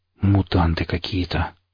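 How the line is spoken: Stunned mutter. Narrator (Russian): ошарашенно пробормотал я

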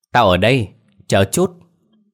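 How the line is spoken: Shouted back. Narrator (Vietnamese): Cô bạn tên Diệp kia cũng hét lại, vừa gọi vừa vẫy tay

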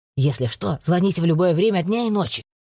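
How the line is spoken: Gloomy hiss. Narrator (Russian): Доктор мрачно прошипел

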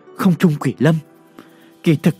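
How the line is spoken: Sighing. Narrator (Vietnamese): Lãnh Tuyết Quyên thở dài

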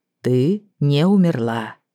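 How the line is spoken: Muffled, flat summing up. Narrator (Russian): глухо подвел итог Дрейк

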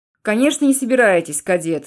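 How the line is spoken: Barked. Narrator (Russian): рявкнул Типолье

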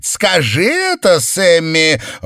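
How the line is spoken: Shouted into the ground. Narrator (Russian): Он прокричал это в землю под домом

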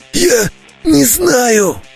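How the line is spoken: Strained wheeze. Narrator (Russian): Натужно прохрипел я

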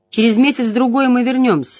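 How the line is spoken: Unnaturally tense voice. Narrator (Russian): сказал Перрин неестественно напряженным голосом

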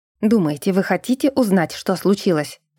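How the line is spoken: Hissing. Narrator (Russian): прошипел беловолосый

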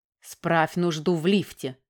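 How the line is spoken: Angry reply. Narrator (Russian): зло ответила Оксана

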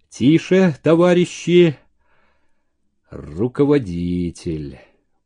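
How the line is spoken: Unexpectedly deep voice. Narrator (Russian): неожиданно густым голосом сказал

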